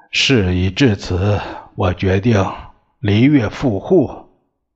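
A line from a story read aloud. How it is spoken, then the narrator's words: Long sigh. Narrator (Chinese): 孙中山长叹一声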